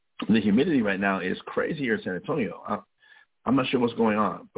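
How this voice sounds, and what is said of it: Crackling, slightly congested voice. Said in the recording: “as you can hear in, in my voice, I, my voice is kind of crackling a little bit ... the humidity is really got is really getting to me ... clear my nose out”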